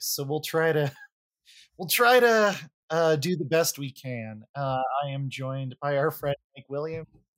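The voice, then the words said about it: Hoarse, smoky, nearly lost voice. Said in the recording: “I have almost completely lost my voice ... it adds sort of a smoky, almost jazzy style to it”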